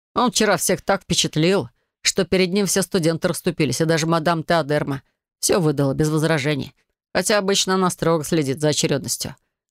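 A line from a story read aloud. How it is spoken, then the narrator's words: Smirking grunt. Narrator (Russian): хмыкнул Илай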